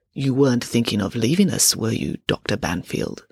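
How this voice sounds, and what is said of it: Character voice with thick accent. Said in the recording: “in a thick accent”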